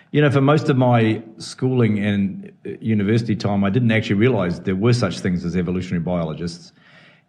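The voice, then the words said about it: New Zealand accent. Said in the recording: “as you can tell from my accent, I come from New Zealand”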